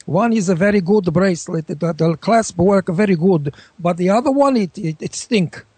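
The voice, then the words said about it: Put-on foreign accent, unconvincingly Russian. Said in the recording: “That doesn't sound Russian. That sounds like a Chiquita banana chick.”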